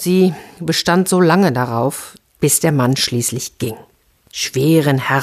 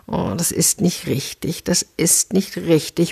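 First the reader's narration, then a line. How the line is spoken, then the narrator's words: Muttering to himself. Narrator (German): murmelte er vor sich hin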